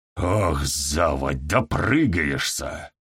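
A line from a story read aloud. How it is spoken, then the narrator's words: Hiss. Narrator (Russian): прошипел Перекус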